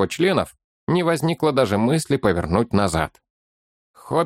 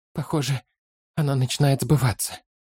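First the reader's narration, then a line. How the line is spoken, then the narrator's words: Tired thought. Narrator (Russian): устало подумал Фолка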